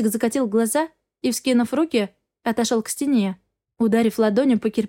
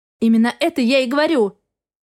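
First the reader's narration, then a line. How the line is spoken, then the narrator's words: Bark. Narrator (Russian): рявкнула я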